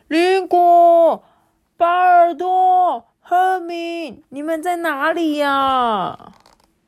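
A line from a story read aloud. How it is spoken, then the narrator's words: Sudden shout. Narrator (Chinese): 一声叫喊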